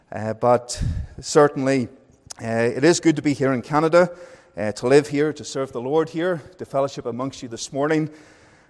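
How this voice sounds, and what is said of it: Northern Irish accent. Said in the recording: “I went from being Northern Irish to Welsh to English and back to being Northern Irish ... I like my accent ... people like my accent ... You have a lovely accent”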